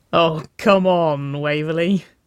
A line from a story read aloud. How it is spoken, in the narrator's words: Winona laughed